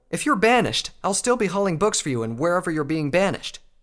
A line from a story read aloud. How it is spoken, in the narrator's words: Spike said angrily